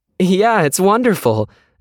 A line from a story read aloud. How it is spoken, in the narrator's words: Mako said, laughing a little too loudly